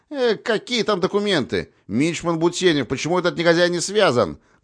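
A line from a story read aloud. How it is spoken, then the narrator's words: Shouting. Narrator (Russian): крикнул Глеб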